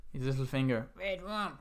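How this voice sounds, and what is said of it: Impression of the 'red rum' voice. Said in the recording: “pretty good impression”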